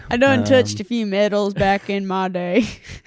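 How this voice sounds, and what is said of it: Put-on country accent. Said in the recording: “why is it always a country accent that we go to?”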